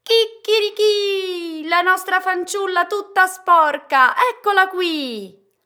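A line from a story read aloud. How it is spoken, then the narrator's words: Rooster crowing out. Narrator (Italian): il galletto sul pozzo appena la vide si mise a gridare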